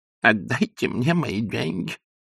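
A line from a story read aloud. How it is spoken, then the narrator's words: Lisping. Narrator (Russian): шепелявил он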